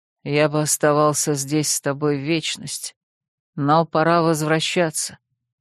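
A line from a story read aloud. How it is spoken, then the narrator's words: Husky voice. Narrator (Russian): Навлад с хрипотцой произнес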